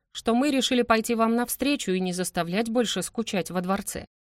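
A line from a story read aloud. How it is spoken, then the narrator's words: Mocking tone. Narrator (Russian): издевательским тоном продолжил Бариль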